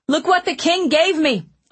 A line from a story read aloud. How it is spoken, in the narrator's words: Owen said loudly